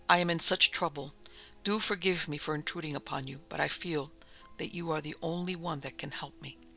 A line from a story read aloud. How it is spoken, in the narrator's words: said brokenly